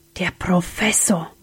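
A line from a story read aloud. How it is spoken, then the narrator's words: Whisper. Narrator (German): wisperte Sam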